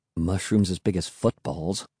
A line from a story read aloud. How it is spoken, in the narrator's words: I murmured